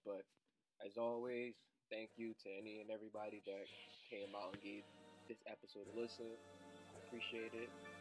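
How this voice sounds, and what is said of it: Rough, sleepy morning voice. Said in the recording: “Sorry for my voice. I just woke up.”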